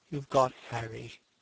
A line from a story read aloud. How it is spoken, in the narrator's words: said Hallward sadly